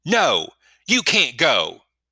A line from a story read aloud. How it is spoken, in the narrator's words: he shouted